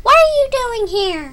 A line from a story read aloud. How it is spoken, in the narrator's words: demanded in a high, squeaky voice